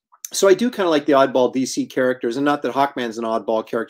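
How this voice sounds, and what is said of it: Strained, worn-out voice. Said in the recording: “My voice. I'm doing so many interviews these days. It's like I'm losing my voice.”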